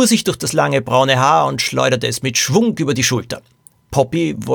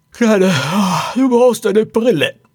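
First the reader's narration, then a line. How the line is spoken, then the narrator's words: Woman groaning. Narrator (German): stöhnte die Frau, die das Zimmer bewohnte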